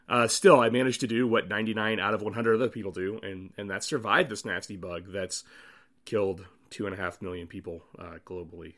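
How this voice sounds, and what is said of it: Froggy, hoarse voice. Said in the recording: “my voice is still a bit froggy”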